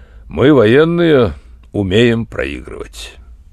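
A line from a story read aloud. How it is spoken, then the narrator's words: Dry colonel. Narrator (Russian): полковник сказал сухо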